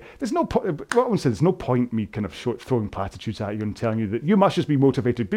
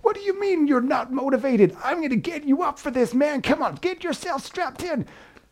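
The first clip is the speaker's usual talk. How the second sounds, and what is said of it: Shouty American personal-trainer voice. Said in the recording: “that was my impression ... I went for the kind of the shouty American PT type”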